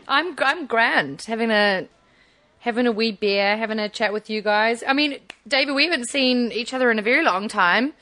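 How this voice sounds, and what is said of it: Slightly unusual New Zealand accent. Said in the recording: “with a slightly crazy Kiwi accent”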